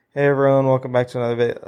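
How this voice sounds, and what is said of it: Flat unexcited monotone. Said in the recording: “monotone just doesn't work ... if they're just talking like”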